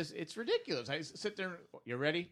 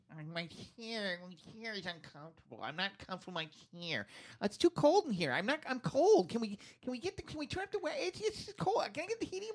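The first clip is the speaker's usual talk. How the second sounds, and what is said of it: Mocking impression of co-hosts. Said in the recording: “Who talks like that? ... that's how you both talk ... That's the worst impression ever. ... It's the best impression I have”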